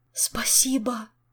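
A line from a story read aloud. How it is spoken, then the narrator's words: Delighted whisper. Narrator (Russian): с восторгом в голосе прошептал Жак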